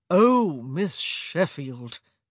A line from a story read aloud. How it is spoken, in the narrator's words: he called out, his voice a rather cruel drawl